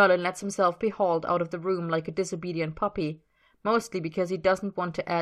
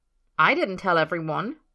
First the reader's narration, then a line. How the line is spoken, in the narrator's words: Merlin says hotly